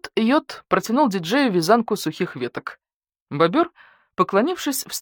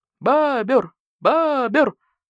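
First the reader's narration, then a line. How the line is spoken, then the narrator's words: Bar crowd yelling, whistling, clapping. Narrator (Russian): завопили, засвистели и захлопали посетители бара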